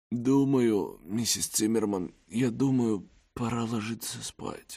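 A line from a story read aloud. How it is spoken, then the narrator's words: Hoarse. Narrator (Russian): хрипло проговорила она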